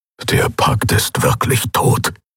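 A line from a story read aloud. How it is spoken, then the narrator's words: Grumbling. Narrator (German): brummte Skoru neben ihr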